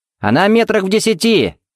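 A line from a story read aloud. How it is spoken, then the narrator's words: Shouted. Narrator (Russian): крикнул Тед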